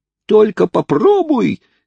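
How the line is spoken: Strangled, choked shout. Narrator (Russian): кричал Хайрам, насколько это было для него возможно, ибо Бенджамин крепко держал его за глотку

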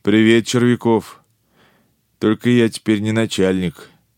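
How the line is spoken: Dejected reply. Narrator (Russian): уныло ответил он

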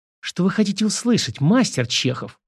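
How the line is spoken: Sudden female hiss. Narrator (Russian): Вдруг прошипела

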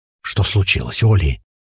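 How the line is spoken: Whispered question. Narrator (Russian): шепотом спросил спутник

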